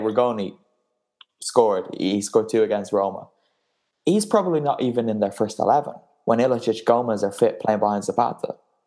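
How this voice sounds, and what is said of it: Irish accent, emotional and riled up. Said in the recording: “just so riled up and the emotion just oozing out in your cute little Irish accent”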